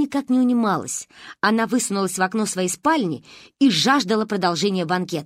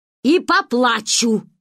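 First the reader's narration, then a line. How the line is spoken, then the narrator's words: Snapping retort. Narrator (Russian): огрызнулся дядя Миша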